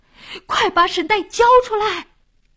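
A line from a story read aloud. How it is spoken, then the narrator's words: Loudest shout. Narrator (Chinese): 老王喊的声音最响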